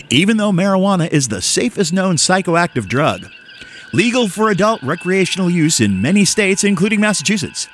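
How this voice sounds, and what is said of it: Announcer-style radio voice. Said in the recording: “in my radio voice”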